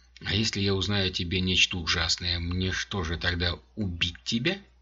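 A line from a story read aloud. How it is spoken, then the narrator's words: Plain. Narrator (Russian): спросила она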